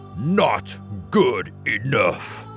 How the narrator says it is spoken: growled

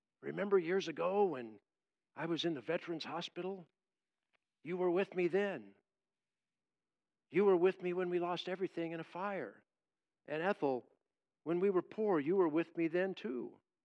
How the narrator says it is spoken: He softly says to her

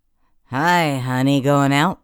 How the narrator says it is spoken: slurred

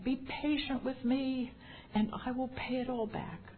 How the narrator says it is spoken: fell to his knees and begged him

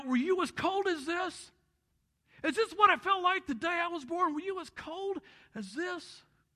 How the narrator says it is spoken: with tears streaming down his face, he cries out

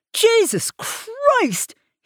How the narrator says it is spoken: he yelled

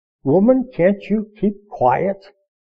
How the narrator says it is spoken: the man ... said through clenched teeth

